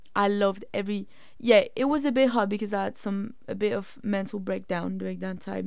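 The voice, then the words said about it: Raspy voice. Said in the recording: “my voice today is super raspy. And it's actually irritating my ears from how, raspy it is.”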